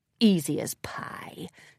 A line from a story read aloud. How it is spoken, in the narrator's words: Tempest mumbled to herself with certain smugness